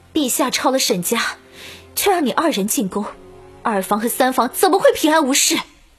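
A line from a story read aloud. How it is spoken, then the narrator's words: Sudden raised voice. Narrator (Chinese): 突然高声道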